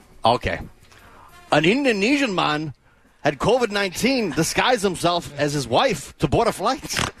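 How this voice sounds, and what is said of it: Attempted Scottish accent. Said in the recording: “Scottish ... So I threw the whole thing in a Scottish accent ... I'm trying to think of a Scottish accent”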